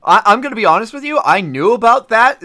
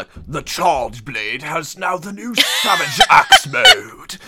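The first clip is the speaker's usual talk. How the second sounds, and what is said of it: Put-on British narrator accent. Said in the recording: “sexy British accent ... You just sound like David Attenborough there”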